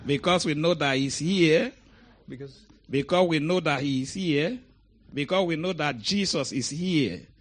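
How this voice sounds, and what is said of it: African-accented English. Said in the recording (Czech): “my African accent”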